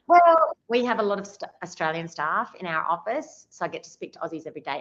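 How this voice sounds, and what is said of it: Thick Australian accent. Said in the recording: “you still have the thick Aussie accent.”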